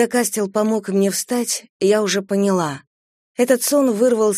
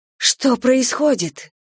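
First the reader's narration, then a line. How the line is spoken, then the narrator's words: Breathless exhale. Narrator (Russian): выдохнула я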